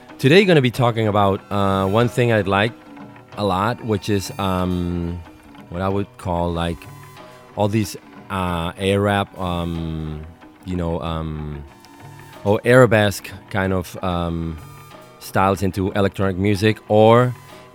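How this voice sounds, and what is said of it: Stuffy voice with a cold. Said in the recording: “I have a cold now”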